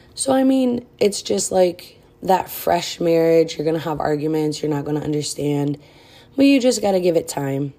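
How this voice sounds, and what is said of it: Breathless, out-of-breath speech. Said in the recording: “I sound out of breath. I'm 5 months pregnant, almost six, so yeah, I'm always out of breath.”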